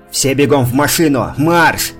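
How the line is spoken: Yelling. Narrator (Russian): заорал Ботвинник

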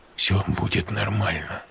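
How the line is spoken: Whispered. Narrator (Russian): шепнул Олег

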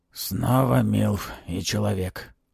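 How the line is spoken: Hoarse voice. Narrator (Russian): хриплым голосом произнес рыцарь

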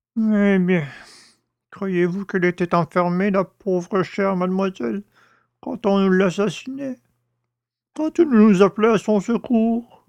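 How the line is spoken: Old man moaning. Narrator (French): gémit le père Jacques

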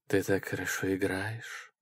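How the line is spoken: Sinful honeyed voice. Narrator (Russian): сказала она грешным медовым голосом

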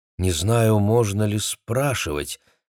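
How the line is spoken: Uncertain. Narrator (Russian): неуверенно произнесла Дженни

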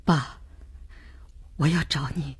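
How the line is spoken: Hoarse, as if crying. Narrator (Chinese): 儿子的声音很哑，像哭过似的

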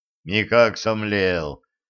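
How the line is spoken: Janitor's rueful sigh. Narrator (Russian): сокрушенно вздохнул дворник

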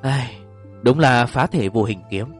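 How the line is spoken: Sighing speech. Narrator (Vietnamese): Vương Tử Thạch thở dài một tiếng nói

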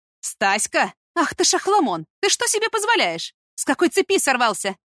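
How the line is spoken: Mother shouting after someone. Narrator (Russian): Крикнула вслед мать

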